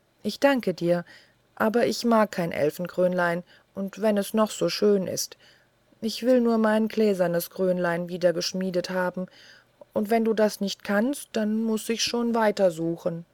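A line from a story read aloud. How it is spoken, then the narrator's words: Sad speech. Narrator (German): blieb so traurig, wie sie war, und sagte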